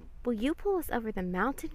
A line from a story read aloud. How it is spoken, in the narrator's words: cried the dolls and toys